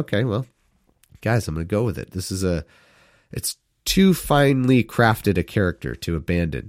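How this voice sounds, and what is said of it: Usual voice. Nothing is said of it.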